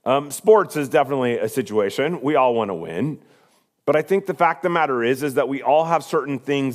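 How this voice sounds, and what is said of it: Slightly hoarse, squeaky voice. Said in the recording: “my voice is a little hoarse ... if I have a little squeak”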